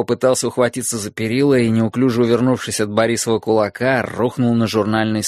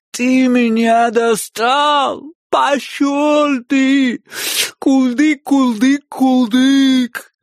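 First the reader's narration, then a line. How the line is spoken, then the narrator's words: Whiny girlish muffled voice. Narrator (Russian): Отозвался я плаксивым девчачьим голосом, лежа лицом в ковролине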